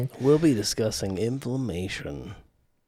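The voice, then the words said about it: Put-on character voice. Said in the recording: “I was doing a voice right there. I don't know why.”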